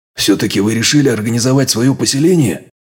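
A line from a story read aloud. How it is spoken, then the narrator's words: Admiring breathy exhale. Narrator (Russian): С восхищением выдохнул я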